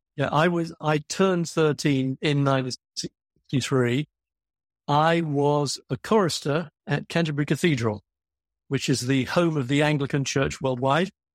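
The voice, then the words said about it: English accent. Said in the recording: “you have what sounds like an English accent”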